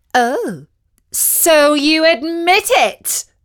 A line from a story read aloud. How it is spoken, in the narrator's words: said loudly